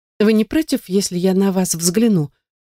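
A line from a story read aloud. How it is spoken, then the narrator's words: Timid request. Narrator (Russian): Робко прошу я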